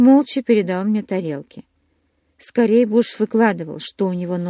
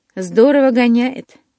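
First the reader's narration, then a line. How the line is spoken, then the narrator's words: Admiring exclamation. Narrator (Russian): восхищенно воскликнул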